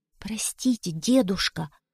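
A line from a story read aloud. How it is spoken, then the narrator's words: Whisper. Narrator (Russian): прошептал Витя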